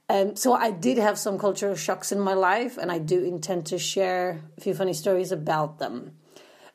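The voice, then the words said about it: Polish accent. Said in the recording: “I did grow up in socialist Poland in the 80s, because you might be wondering where my accent is from”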